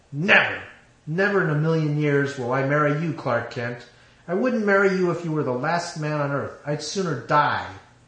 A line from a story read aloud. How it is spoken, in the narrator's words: She growled